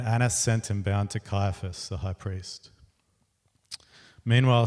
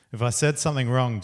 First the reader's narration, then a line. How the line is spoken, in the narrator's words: Jesus replied